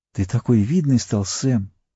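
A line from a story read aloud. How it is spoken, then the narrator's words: Changed voice. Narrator (Russian): совсем другим голосом сказала она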